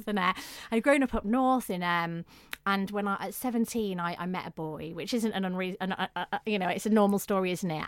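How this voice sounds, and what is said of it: Northern English accent. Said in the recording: “You may be able to tell from my accent I'm not from the south... I'd grown up in the north of England”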